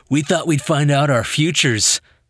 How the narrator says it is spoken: laughed the leader

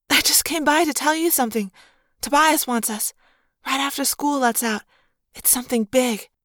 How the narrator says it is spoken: in a breathless voice she whispered

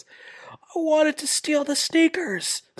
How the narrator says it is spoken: Kingston yells

